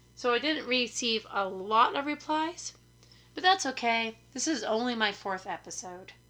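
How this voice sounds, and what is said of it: Hoarse, raspy, tired voice. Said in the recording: “I'm hella tired ... I have, I think, the plague and I have an ear infection ... I sound like a chain smoker”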